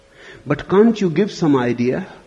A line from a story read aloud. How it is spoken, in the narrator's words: he pleaded